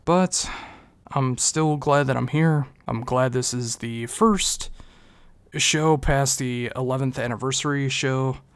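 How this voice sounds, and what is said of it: Subdued, unenthusiastic voice. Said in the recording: “my mental state, I'm pretty messed up right now. You can probably hear it in my voice that I don't have the enthusiasm that I normally do”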